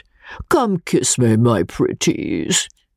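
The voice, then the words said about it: Deep voice. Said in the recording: “said the deep voice”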